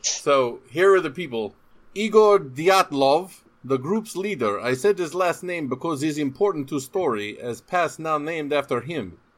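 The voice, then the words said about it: Deliberately bad Russian accent. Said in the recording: “reading the first names in a shitty Russian accent”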